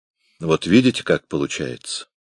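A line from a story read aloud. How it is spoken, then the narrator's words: Low voice. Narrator (Russian): сказала вполголоса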